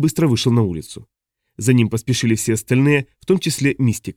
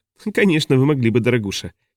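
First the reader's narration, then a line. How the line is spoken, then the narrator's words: Giggle. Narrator (Russian): хихикнула Мистика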